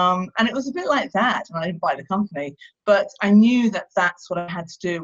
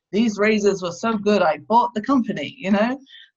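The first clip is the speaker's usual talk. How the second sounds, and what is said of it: Bad put-on American accent. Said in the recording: “Excuse my very bad American accent.”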